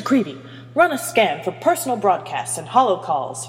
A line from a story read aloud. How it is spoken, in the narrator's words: Hermione barked